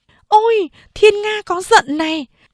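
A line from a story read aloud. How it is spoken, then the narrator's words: Woman's surprised exclamation. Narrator (Vietnamese): Người đàn bà váy đỏ đột nhiên kinh ngạc kêu lên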